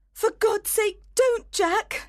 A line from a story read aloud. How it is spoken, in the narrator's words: she cried